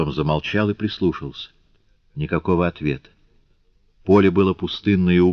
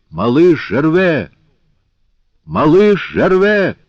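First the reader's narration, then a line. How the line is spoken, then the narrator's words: Shouting at full strength. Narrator (Russian): закричал изо всей силы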